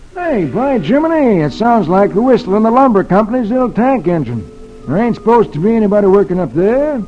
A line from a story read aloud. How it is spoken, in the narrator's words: Suddenly he exclaims